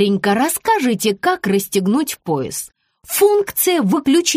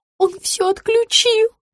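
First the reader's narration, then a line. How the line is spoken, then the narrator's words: Sobbing. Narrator (Russian): всхлипнула Рита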